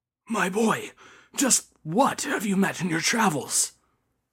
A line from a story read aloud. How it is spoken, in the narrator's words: the priest asked him in a hushed and fearful tone